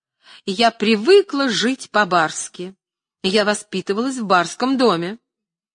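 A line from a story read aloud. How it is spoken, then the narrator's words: Shouting. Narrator (Russian): она кричала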